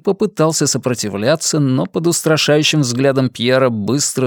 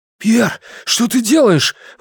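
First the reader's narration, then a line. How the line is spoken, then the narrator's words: Exclamation. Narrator (Russian): воскликнул Ги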